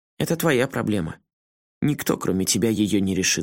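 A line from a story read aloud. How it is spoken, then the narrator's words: Calm. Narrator (Russian): спокойно ответил толстяк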